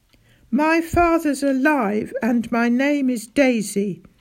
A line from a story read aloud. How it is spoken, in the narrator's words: shouted Daisy